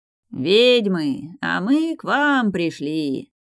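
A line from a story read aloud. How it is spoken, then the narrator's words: Loud sing-song bawling. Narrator (Russian): Горланил нараспев черный дракон в человеческой ипостаси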